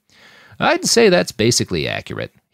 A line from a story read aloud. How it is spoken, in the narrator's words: he chuckled